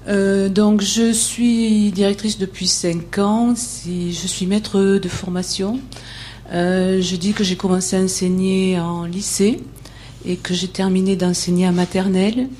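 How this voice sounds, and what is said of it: Speaks with a noticeable regional accent. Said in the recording (French): “malgré mon accent”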